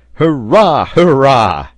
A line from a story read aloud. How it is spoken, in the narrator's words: cried Pencroft